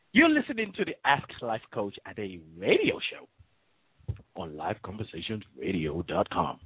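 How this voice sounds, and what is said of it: Announcer-style radio voice. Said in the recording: “That's my radio voice. This is my regular voice now.”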